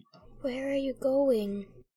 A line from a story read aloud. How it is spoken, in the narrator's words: said Ron sleepily